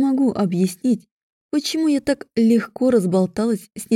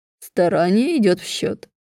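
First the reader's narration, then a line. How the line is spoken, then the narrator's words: Laughing. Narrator (Russian): рассмеялся Аарон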